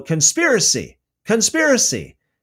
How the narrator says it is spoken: Athaliah tore her clothes and cried out

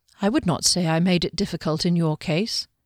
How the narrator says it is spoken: Kami said quietly

